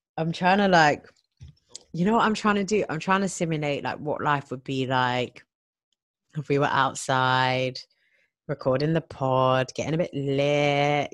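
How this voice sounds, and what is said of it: Croaky voice. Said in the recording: “my voice is like on a croaky croak”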